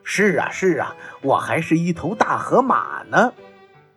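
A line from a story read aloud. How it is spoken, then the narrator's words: Laughing father. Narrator (Chinese): 爸爸笑着说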